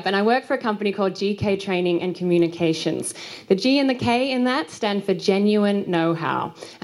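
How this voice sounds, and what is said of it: Australian accent. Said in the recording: “You can probably tell from my accent ... I'm from Australia”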